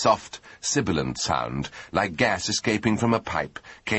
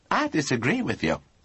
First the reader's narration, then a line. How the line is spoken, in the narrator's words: said Lord Emsworth warmly